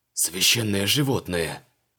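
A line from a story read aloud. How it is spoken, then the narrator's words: Breathed out with awe. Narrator (Russian): выдохнул он, с новым уважением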